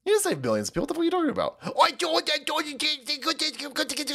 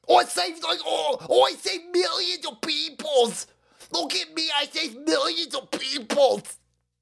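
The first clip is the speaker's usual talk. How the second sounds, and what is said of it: Imitates another person's voice, English accent. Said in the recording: “Fauci turning English... I can't do the fucking voice anymore”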